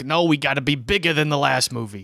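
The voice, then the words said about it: New York agent voice. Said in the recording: “do an impression of an agent, always from New York”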